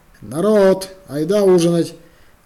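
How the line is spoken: Shouted to children. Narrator (Russian): крикнула Алина малышню

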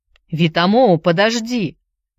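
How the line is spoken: Shouting. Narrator (Russian): крикнул он

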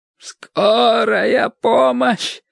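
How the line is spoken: Hoarse croak. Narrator (Russian): прохрипел Теркот

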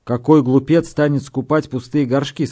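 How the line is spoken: Plain question. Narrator (Russian): спросил я

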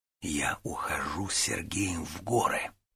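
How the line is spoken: Whisper. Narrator (Russian): шепотом сообщил Гуров другу

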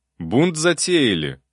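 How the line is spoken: Menacing question. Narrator (Russian): грозно спросил

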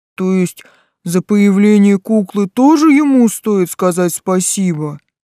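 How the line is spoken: Low booming voice. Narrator (Russian): прогудел Тесл

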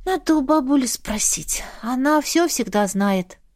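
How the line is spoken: Resigned sigh. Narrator (Russian): вздохнула, уже предвидя взбучку

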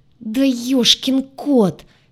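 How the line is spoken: Exasperated wail. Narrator (Russian): в сердцах взвыла я

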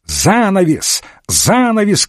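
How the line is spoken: Shouting. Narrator (Russian): кричал доктор Уотсон

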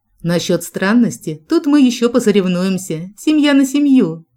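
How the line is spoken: Amused snort. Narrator (Russian): хмыкнул Джек

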